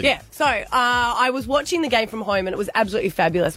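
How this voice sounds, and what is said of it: Hoarse, strained voice. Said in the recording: “I've been losing my voice because we're all living together and went a little bit too hard”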